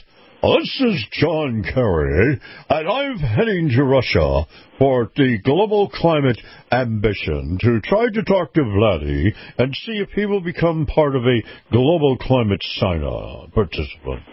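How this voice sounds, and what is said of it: John Kerry impression. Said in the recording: “Let me try to do this in my best John Kerry voice.”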